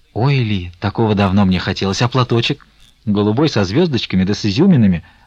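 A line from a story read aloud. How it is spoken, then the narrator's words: Plain. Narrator (Russian): сказала Фленушка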